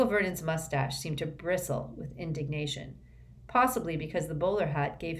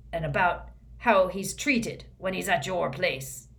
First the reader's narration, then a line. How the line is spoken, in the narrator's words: growled Moody